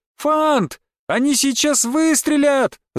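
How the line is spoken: Scream. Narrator (Russian): закричала

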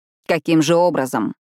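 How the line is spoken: Unusually stern question. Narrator (Russian): непривычно строго спросил Рави

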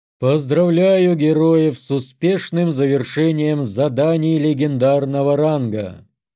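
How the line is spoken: Solemn booming voice. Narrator (Russian): прогремел торжественный голос

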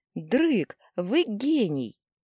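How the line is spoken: Excited exclamation. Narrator (Russian): воскликнула я

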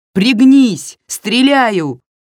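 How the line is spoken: Shout. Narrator (Russian): крикнула она

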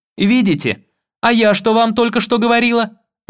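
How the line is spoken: Indignant shouting. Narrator (Russian): возмущенно кричала Одри

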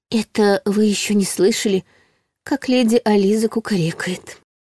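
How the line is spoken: Confiding whisper. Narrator (Russian): шепотом поделилась Ларри

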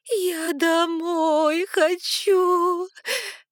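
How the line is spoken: Whining again. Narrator (Russian): Вновь заскулила я

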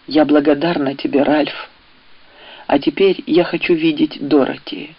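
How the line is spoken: Quiet but firm. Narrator (Russian): негромко, но твердо произнесла

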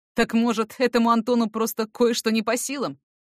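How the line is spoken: Angry retort. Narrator (Russian): Зло вернул Эрик

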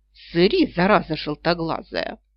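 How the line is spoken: Wheezing rasp. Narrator (Russian): просипела я

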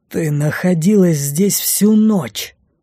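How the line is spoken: Through gritted teeth. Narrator (Russian): процедил милорд

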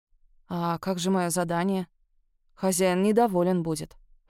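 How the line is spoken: Muttered. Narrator (Russian): пробормотала Агюстен

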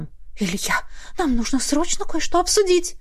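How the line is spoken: Tragic whisper. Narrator (Russian): произнесла трагическим шепотом

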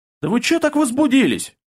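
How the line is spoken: Snapping back. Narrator (Russian): огрызнулся я

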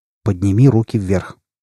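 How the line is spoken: Quiet but firm. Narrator (Russian): Грегор тихим, но решительным голосом сказал

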